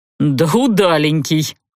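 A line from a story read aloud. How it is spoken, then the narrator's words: Chuckled. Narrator (Russian): Парень хохотнул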